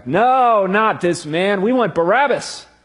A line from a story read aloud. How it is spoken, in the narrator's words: they shouted back